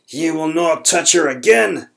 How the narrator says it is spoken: Grimley roared

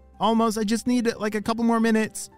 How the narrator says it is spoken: shouted Ollie

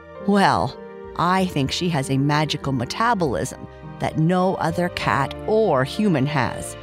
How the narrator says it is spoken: Libby's mother replied

